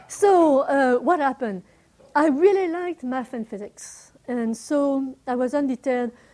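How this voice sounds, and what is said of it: German accent. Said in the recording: “add my accent ... you have a strange accent. I would say a German accent”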